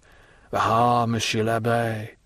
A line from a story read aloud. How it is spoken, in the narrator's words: said Caderousse with a sigh